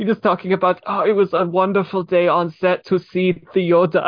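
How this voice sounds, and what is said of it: Usual voice. Nothing is said of it.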